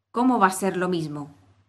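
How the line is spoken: Exclaiming. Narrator (Spanish): exclamó el sombrerero

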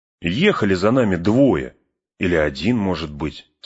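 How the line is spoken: Plain. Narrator (Russian): сказал Пин

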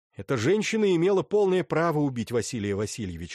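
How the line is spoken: Plain. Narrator (Russian): сказал я ему

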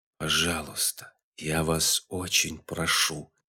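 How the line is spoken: Quiet but insistent interruption. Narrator (Russian): тихо, но настойчиво перебила его Бомби

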